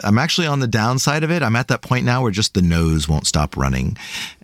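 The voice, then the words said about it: Nasal voice from a cold. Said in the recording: “I apologize if I sound a little nasally today”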